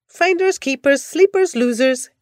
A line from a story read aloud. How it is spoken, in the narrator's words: mocked